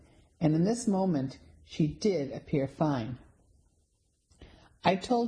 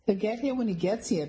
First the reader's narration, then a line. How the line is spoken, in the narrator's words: Penny said breathlessly